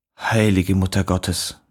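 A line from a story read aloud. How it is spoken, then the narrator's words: Woman gatekeeper murmuring. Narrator (German): murmelte die Pförtnerin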